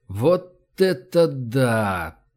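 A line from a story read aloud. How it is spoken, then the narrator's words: Puzzled drawl. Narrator (Russian): Протянул я, озадаченно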